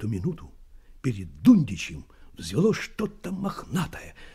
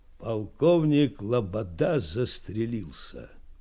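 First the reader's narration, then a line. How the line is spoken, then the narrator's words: Muffled, dull voice. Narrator (Russian): глухо сказал чей-то голос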